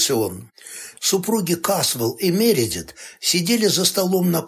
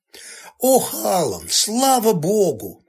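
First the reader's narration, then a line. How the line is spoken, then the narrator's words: Theatrical western-heroine exclamation. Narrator (Russian): воскликнула она на манер героини вестерна, живущей на фронтире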